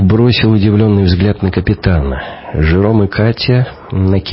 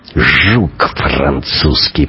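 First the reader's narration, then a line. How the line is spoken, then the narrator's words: Through gritted teeth. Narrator (Russian): процедил сквозь зубы Шибанов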